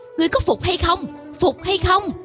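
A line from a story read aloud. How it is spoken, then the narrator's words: Child's shrill shout. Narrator (Vietnamese): Một đứa mặt mũi khôi ngô quát lên lanh lảnh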